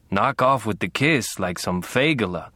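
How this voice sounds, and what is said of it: Raspy thick Middle European accent. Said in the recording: “she rasped, with her thick Middle European accent.”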